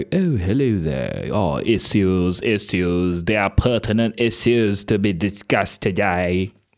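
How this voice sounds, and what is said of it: Put-on posh English accent. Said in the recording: “a really posh accent... a posh accent like that, you know, like the one you hear in Harry Potter”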